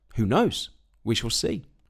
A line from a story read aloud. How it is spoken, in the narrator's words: Calmly, the farmer answered